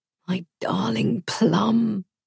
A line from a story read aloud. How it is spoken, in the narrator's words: May's mum says